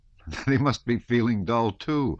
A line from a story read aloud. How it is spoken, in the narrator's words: said one of the bolder officers, laughing